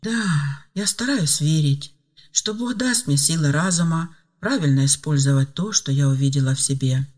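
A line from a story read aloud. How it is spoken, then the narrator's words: Sighing. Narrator (Russian): вздохнула Ева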